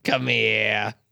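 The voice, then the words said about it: Put-on New York accent. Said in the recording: “I feel like it talks in a New York accent.”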